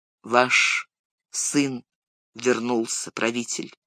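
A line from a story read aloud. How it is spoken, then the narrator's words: Quiet. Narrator (Russian): негромко сказал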